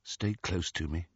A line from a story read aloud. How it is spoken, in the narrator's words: he said quietly